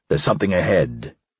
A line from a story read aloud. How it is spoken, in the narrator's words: he said, lowering his voice